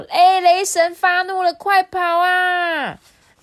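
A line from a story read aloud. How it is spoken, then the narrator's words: Shouting. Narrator (Chinese): 不知道谁喊了一声说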